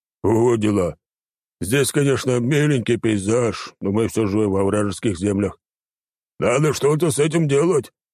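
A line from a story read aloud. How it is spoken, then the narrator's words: Snorting remark. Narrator (Russian): Баги хмыкнул и выдал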